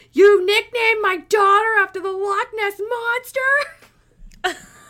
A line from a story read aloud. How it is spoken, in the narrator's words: she yells at him in this angry voice